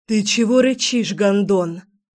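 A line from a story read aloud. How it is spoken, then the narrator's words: Growling young woman. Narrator (Russian): Не менее вежливо зарычала девушка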